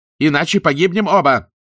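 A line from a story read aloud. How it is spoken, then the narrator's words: Yelled. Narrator (Russian): Штирлиц заорав пилоту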